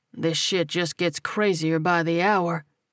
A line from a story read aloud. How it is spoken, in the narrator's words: he muttered